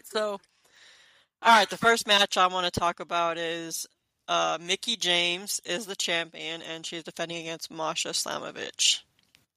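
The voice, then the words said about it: Hoarse, froggy voice. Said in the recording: “I have a frog in my throat.”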